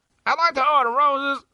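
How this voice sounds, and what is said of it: Imitates another person's voice. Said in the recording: “Worst impression of all time.”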